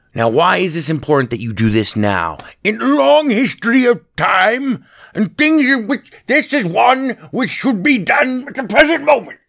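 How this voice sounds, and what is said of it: Poor imitation of another person's voice. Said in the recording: “That was the worst Winston Churchill I've ever done ... worst Churchill impression I've ever done in my entire life ... that was terrible”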